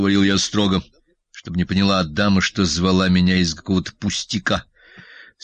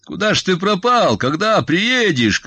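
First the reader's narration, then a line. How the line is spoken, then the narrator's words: Shouting. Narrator (Russian): кричал я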